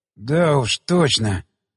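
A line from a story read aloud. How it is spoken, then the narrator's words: Hoarse rasp. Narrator (Russian): прохрипел я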